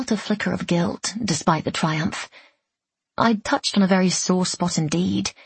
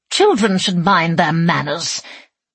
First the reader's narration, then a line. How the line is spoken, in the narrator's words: Great Aunt Stregaria snarled